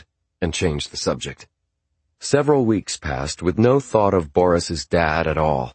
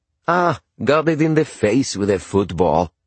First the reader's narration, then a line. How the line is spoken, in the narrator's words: he said in a cheery voice